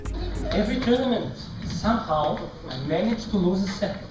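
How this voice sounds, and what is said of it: Impression of Novak Djokovic. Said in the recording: “taken over Novak Djokovic's famous impersonations. In fact, impersonating Nole himself ... hilarious impersonation of Joker Nole”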